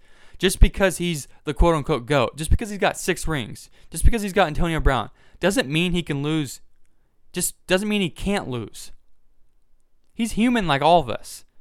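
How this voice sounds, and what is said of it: Excited, fired-up speaking voice. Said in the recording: “now I'm getting fired up. You probably can hear it in my voice. I'm getting fired up.”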